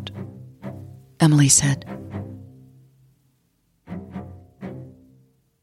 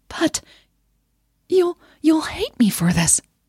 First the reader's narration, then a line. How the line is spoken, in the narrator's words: she stammered, without thinking